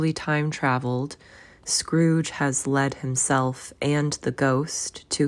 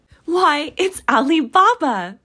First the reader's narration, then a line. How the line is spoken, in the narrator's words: Scrooge exclaimed in ecstasy